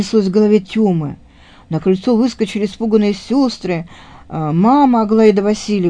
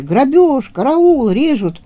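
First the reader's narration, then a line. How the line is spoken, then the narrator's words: Butchers shouting. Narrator (Russian): Мясники закричали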